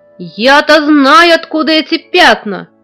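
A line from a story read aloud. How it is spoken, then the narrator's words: Sudden menacing shout. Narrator (Russian): вдруг грозно закричал дядя Федя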